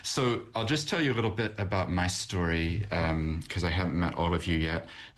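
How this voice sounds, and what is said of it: American accent. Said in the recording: “I have an accent, and that's because I'm from America originally”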